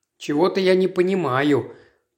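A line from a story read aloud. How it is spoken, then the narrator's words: Mutter. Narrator (Russian): пробормотал Пуаро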